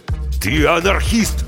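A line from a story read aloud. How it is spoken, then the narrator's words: Barked. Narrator (Russian): рявкнул Базунов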